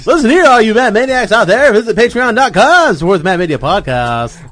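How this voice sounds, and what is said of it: Announcer-style radio voice. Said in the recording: “Can you give us a preview of your radio voice ... In your radio voice.”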